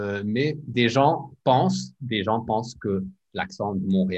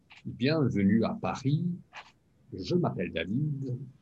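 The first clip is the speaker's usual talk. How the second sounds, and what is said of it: Put-on elegant Parisian French accent. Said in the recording (French): “Mais l'accent français, c'est élégant. ... Donc, c'est beaucoup plus élégant.”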